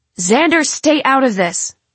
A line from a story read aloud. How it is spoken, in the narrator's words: I shout at him